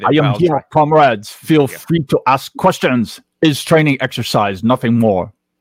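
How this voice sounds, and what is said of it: Put-on Russian accent. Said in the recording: “Who could do a good Russian accent? ... That was like Chairman Mao mixed with Putin. That was an interesting mix.”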